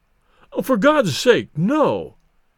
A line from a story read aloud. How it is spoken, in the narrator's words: pleaded Bates